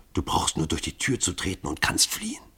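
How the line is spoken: Murmured. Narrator (German): raunte Grunja ihrem Vater zu

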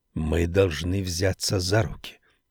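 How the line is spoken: Whisper. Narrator (Russian): прошептал герцог

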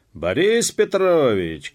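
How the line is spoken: Shout. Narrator (Russian): крикнул он опять

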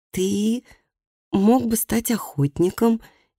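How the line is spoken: Hesitant suggestion. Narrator (Russian): неуверенно предложила она

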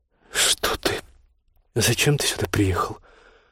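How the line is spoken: Demoralized whisper. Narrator (Russian): прошептала Ольга, совершенно деморализованная этим бессовестным вторжением на свою территорию

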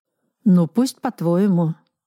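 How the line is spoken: Weary agreement. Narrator (Russian): устало согласился Сергей Яковлевич

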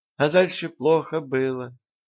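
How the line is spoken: Sad. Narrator (Russian): печально сказала Мария Николаевна

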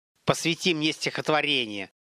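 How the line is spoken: Level-toned snap. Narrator (Russian): Не повышая тона, огрызнулся Олег

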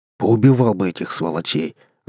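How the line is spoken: Growl. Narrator (Russian): зарычал Серж

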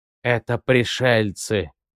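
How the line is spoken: Low, playfully spooky tone. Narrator (Russian): произнес еж низким, шутливо-жутковатым тоном

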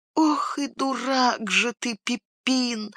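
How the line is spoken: Whispered self-reproach. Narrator (Russian): шепотом обругал себя хоббит

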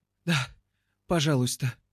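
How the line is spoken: Whimpering. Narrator (Russian): хныкает Айви

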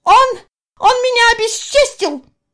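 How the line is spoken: Woman shouting. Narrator (Russian): закричала

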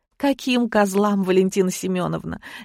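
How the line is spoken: Sniffly, silly giggle. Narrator (Russian): Я шмыгнула носом и глупо хихикнула

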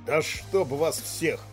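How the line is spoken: Hiss. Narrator (Russian): прошипел Глеб

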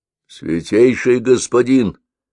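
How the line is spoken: Low hoarse voice. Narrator (Russian): произнес Токсар низким хриплым голосом

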